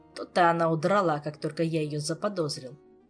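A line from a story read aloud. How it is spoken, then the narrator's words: Grumbling. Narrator (Russian): проворчал Кантор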